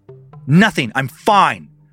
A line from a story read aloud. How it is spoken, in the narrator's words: Jack spat as he scowled at his sister